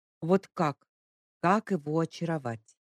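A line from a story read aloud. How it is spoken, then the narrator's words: Sighing. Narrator (Russian): Вздохнула еще раз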